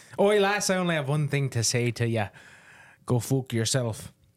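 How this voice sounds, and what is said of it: Put-on Irish accent. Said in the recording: “I about exhausted my Irish accent right there. ... It was in an Irish accent.”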